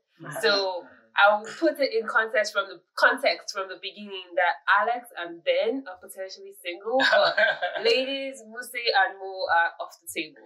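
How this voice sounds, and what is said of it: Nigerian accent. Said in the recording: “I have a very Nigerian accent, I believe. Although someone told me it was kind of British”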